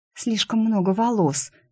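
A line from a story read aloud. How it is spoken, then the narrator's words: Whisper. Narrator (Russian): шепнула она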